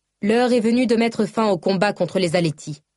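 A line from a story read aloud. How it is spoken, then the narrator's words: Loud announcement. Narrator (French): annonça Shonai d'une voix forte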